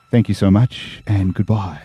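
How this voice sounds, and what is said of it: Radio announcer voice. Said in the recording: “I'm going to put my radio voice back on.”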